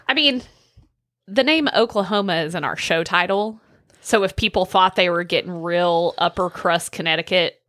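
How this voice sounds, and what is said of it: Oklahoma rural Southern accent. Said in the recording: “My poor little Oklahoma hick accent”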